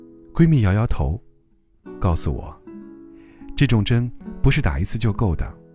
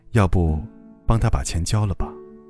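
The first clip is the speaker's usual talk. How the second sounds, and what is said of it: Soft, quiet voice. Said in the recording (Chinese): “小声”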